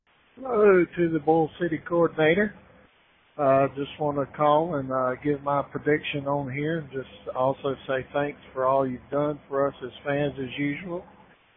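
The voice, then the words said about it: Slightly hoarse voice. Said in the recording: “my voice is still a little hoarse.”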